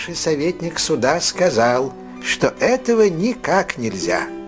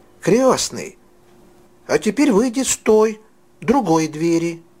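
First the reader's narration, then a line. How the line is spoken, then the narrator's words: Impatient exclamation. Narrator (Russian): Фриц в нетерпении воскликнул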